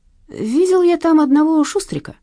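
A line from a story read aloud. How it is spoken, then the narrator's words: Thoughtful. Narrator (Russian): задумчиво проговорил Вадик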